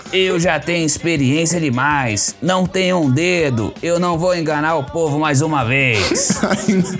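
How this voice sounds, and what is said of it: Imitates another person's voice. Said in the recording (Portuguese): “A imitação começou com Lula, terminou com ... Enéas.”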